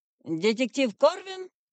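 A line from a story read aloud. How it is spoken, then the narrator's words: Orc's bark. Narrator (Russian): рявкнул орк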